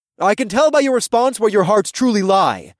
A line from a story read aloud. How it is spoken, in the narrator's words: I shouted over the cacophony of voices